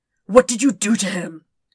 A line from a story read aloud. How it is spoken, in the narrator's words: He hisses